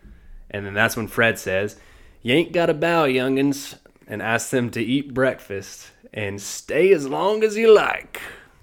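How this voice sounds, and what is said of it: Country Southern accent. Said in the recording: “this guy ... getting more and more country as you go. You're getting more confident with your ... accent ... I am born and raised in the South”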